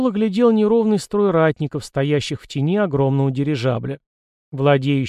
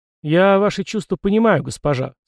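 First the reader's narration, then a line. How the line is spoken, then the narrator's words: Calm reply. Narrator (Russian): спокойно ответил Фрол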